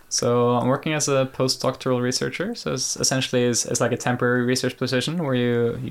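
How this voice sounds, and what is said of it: Peaceful Norwegian Nordic accent. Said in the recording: “a Norwegian ... Nordic accent ... love the accent ... the kind of accent you want to listen to as you go to sleep at night. It's a very peaceful accent.”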